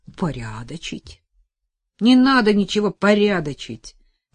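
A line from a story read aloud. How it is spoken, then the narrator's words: Nearly shouted. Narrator (Russian): почти выкрикнул он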